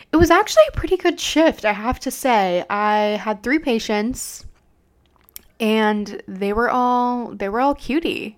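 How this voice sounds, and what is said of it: Congested voice, sniffling. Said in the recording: “I think one of my patients gave me a little bit of a cold. So sorry if my voice sounds a little funky or I'm sniffling. ... I just can't really breathe.”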